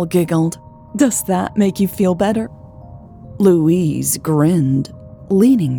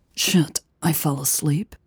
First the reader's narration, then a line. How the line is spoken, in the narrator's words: She asked, her voice hoarse